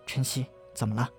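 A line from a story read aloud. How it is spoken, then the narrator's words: Gentle question. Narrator (Chinese): 柔声问道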